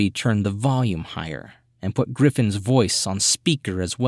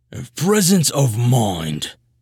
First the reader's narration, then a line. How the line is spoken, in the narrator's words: bellowed, the receiver's signal strength meter pushing into the red